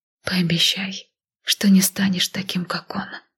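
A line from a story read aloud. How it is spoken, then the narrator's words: Emotional whisper. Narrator (Russian): не удержав эмоции, шепнула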